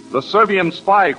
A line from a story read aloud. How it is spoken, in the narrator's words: cries Nadina